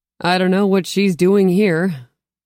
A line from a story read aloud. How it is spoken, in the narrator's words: chuckled